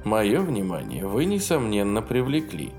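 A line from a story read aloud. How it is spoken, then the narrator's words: Dry. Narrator (Russian): сухо сказал Мэйхью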